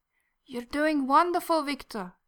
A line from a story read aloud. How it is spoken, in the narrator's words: his mother laughs, a gentle melodious sound